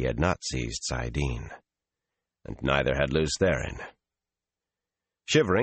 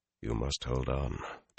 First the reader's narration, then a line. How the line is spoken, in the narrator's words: Taim said softly